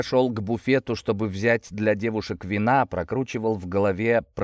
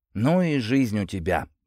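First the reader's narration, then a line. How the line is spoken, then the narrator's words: Breathed out, young man. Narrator (Russian): выдохнул парень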